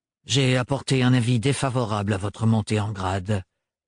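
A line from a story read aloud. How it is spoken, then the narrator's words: Busy, brisk tone. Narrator (French): poursuivit-il d'un ton affairé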